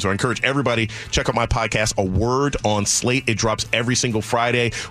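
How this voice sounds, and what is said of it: Crisp radio voice. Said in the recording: “I love your voice... it's a great radio voice... It's crisp.”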